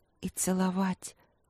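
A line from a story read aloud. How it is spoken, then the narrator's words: Barely audible whisper. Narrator (Russian): прошептала тихо-тихо, так что даже сама не услышала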